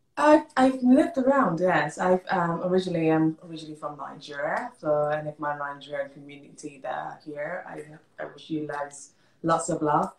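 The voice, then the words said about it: Distinctive accented English. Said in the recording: “there's that beautiful accent. I love it. Speaking of the UK”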